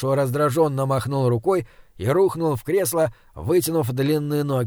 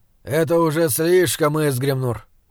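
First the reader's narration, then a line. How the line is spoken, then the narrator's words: Weary. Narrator (Russian): устало сказал он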